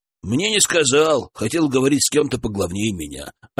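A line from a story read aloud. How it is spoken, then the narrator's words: Plain reply, young man. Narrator (Russian): ответил парень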